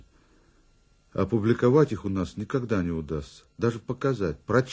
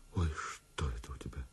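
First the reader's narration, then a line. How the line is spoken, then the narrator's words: Whispered cry. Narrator (Russian): женщины … вскрикивают шепотом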